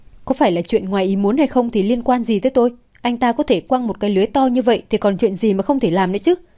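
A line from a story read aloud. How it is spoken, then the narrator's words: Mocking laugh. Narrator (Vietnamese): Hạ Diệp Chi không thể nhịn được, liền cười chế nhạo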